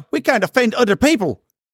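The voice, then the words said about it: Put-on Irish accent. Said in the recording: “had to do the Irish accent”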